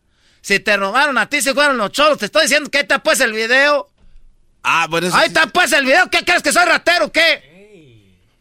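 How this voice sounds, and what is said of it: Shouting angrily. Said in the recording (Spanish): “Me estás gritando. ... me está gritando”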